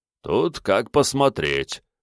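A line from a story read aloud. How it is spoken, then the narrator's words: Snorting spirit. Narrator (Russian): хмыкнул дух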